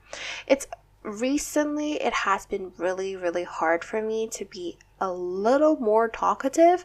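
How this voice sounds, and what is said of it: Jollier-sounding voice than usual. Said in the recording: “hear from my voice, I am a little jollier than usual”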